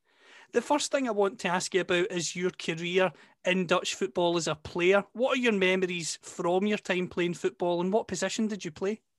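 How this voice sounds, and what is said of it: Scottish accent. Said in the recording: “you can tell from my accent, of course, that I'm from Scotland”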